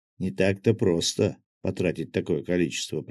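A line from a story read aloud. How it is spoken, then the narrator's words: Young woman's mutter. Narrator (Russian): пробормотала девушка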